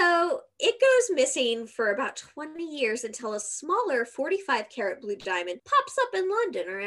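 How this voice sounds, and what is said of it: Usual voice. Nothing is said of it.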